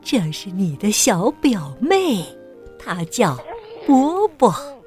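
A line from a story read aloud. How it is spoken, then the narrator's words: Soft, grandmother. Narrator (Chinese): 奶奶轻声说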